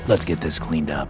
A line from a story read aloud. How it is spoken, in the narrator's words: I said